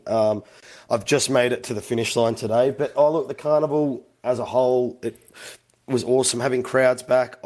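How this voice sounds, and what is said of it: Worn-out, strained voice. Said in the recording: “it's been a big carnival, as you can probably hear from my voice today”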